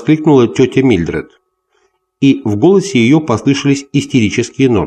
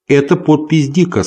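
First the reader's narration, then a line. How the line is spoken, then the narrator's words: Plain. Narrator (Russian): сказал он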